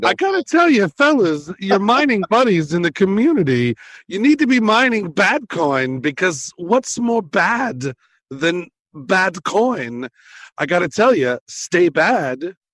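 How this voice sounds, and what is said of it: Christopher Walken impression. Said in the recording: “Follow ... thank you, Christopher Walken, for coming on ... Thanks for doing the impersonation.”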